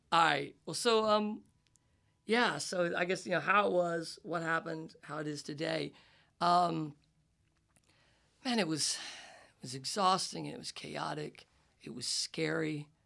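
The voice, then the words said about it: Southern US accent. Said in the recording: “I grew up in a small town in the South. I'm not faking this accent ... my goofy Bill Clinton voice”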